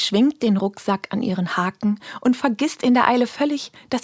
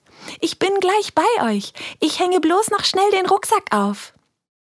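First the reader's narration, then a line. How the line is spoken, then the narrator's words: Quick call from afar. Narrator (German): von Weitem ruft ihnen schnell zu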